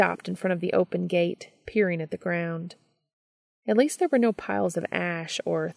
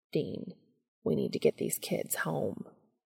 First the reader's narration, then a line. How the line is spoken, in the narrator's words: Cass stepped up behind him and murmured